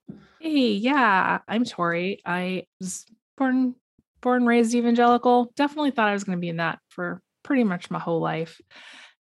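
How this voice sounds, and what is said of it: Hoarse, strained voice. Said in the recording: “I also lost my voice this week. So sorry about that. I'm going to do my best to keep it for the entirety of the show. But yeah, I went camping, and so it was worth it to lose my voice.”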